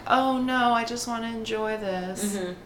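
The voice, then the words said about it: Bad put-on English accent. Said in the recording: “I'm aware of a horrible English accent after living there for 3 years.”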